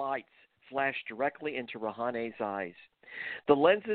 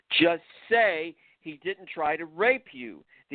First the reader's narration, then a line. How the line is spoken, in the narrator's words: the interrogator screamed once again